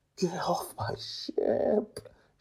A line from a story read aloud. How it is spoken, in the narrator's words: she whispers in a voice that's clearly on the verge of crying